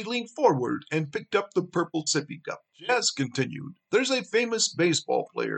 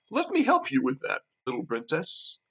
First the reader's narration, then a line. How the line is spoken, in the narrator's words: Jazz smiled warmly and offered